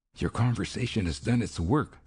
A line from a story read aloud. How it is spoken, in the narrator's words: she whispered